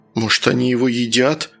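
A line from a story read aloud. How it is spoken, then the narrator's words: Frightened question. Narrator (Russian): испуганно спросил Саня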